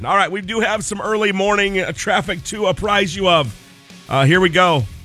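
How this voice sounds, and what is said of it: Raspy sick voice. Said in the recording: “Go get sick ... We're a little raspy”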